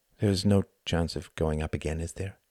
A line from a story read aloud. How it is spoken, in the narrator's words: asked Tom softly